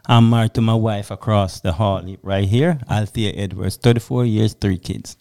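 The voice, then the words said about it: Jamaican-inflected accent. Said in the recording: “Jamaican parentage ... I couldn't tell from the accent, right?”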